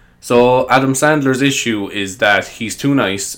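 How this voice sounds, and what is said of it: Usual voice. Nothing is said of it.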